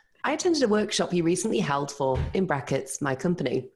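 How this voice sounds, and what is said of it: British accent. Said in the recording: “British accent.”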